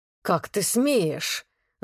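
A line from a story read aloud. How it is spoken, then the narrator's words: Hiss. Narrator (Russian): зашипел Влад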